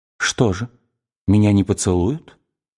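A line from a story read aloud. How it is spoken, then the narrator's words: Whisper. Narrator (Russian): прошептала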